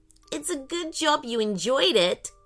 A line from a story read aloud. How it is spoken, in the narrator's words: giggled Ellie